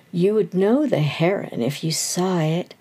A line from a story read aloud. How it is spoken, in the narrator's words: the stranger continued eagerly